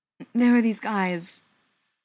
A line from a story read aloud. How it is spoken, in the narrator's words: Spencer said, his voice a little shaky and mostly muffled by his mother's shoulder